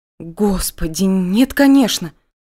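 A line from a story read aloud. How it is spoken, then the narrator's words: Frightened whisper. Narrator (Russian): Испуганно прошептала я по-русски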